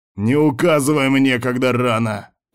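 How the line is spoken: Leader shouting. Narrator (Russian): крикнул вожак

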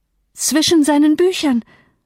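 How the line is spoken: Frantic cry. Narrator (German): rief außer sich

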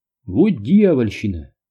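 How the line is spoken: Annoyed exclamation. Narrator (Russian): воскликнул раздосадованный Дью

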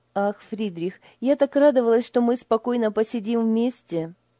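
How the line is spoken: Sigh. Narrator (Russian): Вздохнула Лиля

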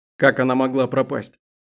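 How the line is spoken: Growl. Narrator (Russian): прорычал он

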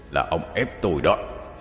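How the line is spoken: Harsh, glaring voice. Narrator (Vietnamese): nó trừng mắt nhìn ông cho gằn giọng nói

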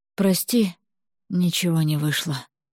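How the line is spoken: Hoarse tearful mumble. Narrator (Russian): пробормотала я хриплым голосом, и слезы потекли по щекам

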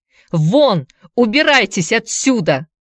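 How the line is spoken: Angry shout. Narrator (Russian): закричал он

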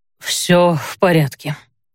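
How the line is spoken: Breathy exhale. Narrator (Russian): выдохнул Хендрейк

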